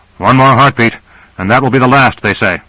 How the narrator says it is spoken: Grant called out above the reverberating boom

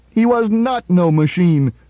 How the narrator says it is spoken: screamed Gloria, fiercely and ungrammatically

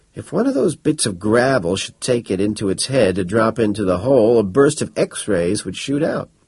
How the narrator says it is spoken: Estes said grimly

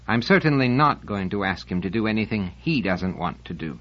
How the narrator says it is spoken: Selden said firmly

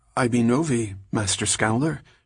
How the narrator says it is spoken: she said in what was almost a gasp

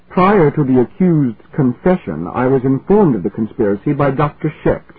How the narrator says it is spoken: replied stiffly

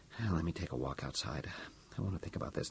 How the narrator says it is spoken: Robertson muttered

